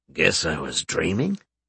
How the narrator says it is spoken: Seamus muttered to himself

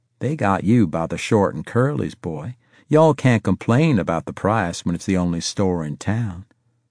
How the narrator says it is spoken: Sergeant Walker used to say in his easy Georgia drawl

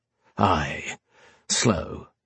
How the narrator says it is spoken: Goggin muttered

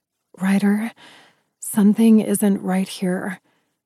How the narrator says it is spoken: I breathed

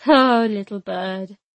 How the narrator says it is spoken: he said smoothly

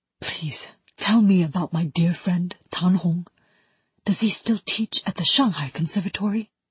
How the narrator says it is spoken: whispered, full of emotion

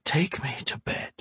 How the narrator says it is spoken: Her lips parted from his just long enough for her to whisper

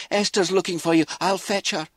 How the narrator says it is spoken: she called out

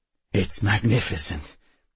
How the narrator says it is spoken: Bentham said weakly

